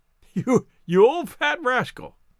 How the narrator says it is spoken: he chuckled

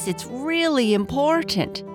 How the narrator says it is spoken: she yelled down the stairs

